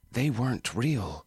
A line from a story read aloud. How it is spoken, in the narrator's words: Sarah said